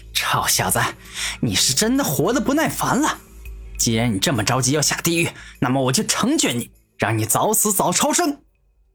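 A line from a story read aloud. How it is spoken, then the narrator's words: Smiling, earnest. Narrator (Chinese): 古天明面带微笑，认真的看着六目圣人说道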